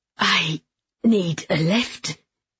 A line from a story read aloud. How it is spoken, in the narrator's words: she gasped